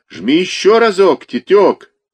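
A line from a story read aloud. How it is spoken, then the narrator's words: Fan shouting with laughter. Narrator (Russian): крикнул ему со смехом кто-то из болельщиков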